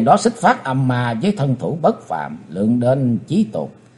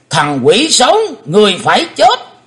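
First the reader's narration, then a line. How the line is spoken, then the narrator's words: Loud roar. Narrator (Vietnamese): Lão đại ác ma gầm to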